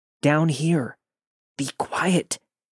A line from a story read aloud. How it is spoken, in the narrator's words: He responded in the most shaken up voice